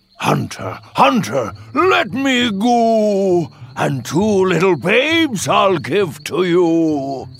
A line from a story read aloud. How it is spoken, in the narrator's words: the wolf cried out